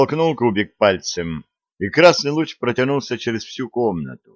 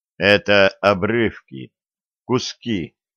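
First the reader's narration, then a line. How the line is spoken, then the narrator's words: Slow. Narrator (Russian): медленно заговорил человек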